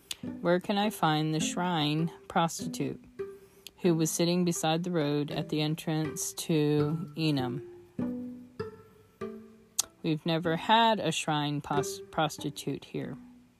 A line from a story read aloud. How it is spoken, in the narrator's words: replied